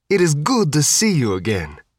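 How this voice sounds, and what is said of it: Thick put-on Sicilian accent. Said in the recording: “a short, rotund fellow with a thick Sicilian accent”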